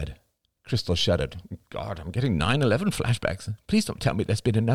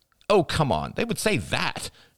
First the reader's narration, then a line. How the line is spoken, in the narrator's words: snapped Crystal